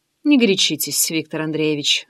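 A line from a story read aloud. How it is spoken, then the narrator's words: Dry advice. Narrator (Russian): сухо посоветовала я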